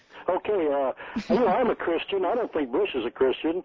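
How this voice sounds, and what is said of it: Kentucky accent. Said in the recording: “I hope you people speak Kentucky ... We definitely speak that style of Kentucky”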